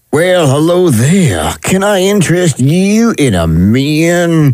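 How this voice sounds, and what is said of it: Put-on Southern US accent. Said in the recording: “Next on the list is the Southern U.S. ... It's supposed to be sexy more ... The sexiest accent ... Why are you twisting up your mouth like that? ... That's what Texans do.”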